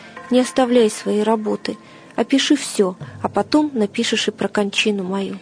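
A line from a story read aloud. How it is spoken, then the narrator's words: Quiet speech. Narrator (Russian): Мученик же тихо проговорил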